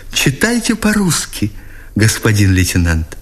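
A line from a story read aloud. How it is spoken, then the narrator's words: Exclaimed, then guilty whisper. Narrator (Russian): воскликнула она, обрадованной вместе виновато попросила его шепотом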